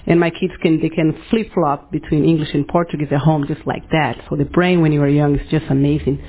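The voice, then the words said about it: Brazilian accent. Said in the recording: “You guys probably noticed from my accent, I'm from Brazil”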